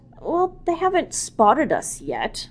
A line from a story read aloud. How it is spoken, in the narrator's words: Zilal muttered